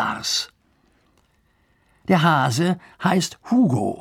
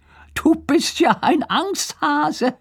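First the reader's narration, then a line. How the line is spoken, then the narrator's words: Said with laughter. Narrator (German): sagt und lacht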